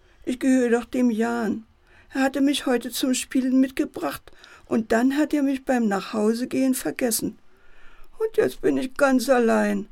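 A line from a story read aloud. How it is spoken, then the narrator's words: Teddy bear whining. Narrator (German): jammert der Teddy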